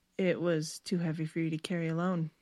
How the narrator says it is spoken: Stephanie said quietly

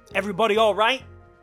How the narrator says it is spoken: Joe shouted

